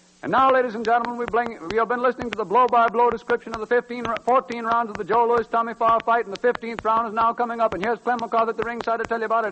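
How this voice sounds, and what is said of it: Imitates a radio boxing announcer. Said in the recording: “My next imitation is a facsimile broadcast of the 15th round of the Joe Louis-Tommy Farr fight, with Ed Hill as between the rounds announcer”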